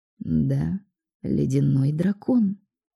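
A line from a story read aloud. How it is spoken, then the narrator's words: Calm admission. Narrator (Russian): спокойно признал Алекс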